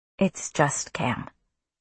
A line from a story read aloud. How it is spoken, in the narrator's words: Cam said quietly